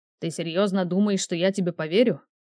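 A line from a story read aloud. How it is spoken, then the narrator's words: Growled. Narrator (Russian): рыкнул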